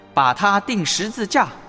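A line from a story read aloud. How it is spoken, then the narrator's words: Crowd shouting louder. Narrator (Chinese): 众人却更加大声喊叫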